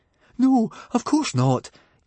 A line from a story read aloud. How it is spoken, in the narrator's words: gasped Fishlegs